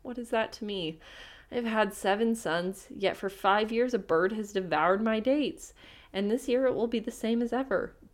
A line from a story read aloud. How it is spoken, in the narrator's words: the sultan only shook his head and said sadly